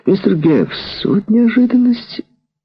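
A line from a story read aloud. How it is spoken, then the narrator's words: Exclamation. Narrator (Russian): Адель воскликнула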